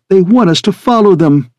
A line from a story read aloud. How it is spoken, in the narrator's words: Periwinkle says excitedly